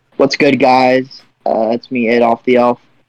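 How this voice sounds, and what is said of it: Hick elf character voice. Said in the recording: “I'll do an Adolf the Elf impression... He's a little hick.”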